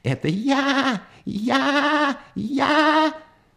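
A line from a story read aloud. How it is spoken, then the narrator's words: Frog's full-voiced scream. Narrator (Russian): Тут уж лягушка не выдержала и, забыв всякую осторожность, закричала изо всей мочи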